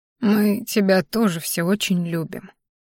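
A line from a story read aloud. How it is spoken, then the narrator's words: Old man mumbling. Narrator (Russian): пробормотал дедуля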